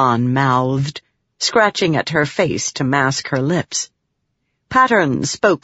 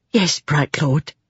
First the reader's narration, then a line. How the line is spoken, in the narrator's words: the cook said, speaking softly to match Pattern's tone of voice